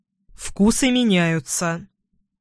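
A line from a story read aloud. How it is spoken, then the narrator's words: Cold, suppressed indignation. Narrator (Russian): холодно улыбнулся Эдвин, стараясь скрыть негодование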